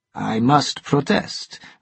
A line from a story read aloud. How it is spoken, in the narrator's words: the captain replied weakly